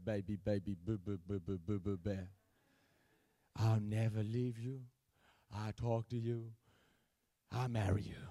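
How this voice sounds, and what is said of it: Imitates another person's voice. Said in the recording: “my impersonation”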